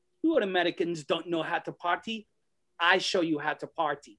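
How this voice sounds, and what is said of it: Put-on Iranian accent. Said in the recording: “he spoke with the same accent ... Iron Sheik, who's from Iran”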